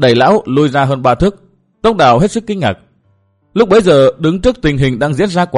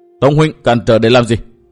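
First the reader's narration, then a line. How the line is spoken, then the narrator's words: Angry question. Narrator (Vietnamese): Nguyễn Bình tức giận hỏi Tông Đào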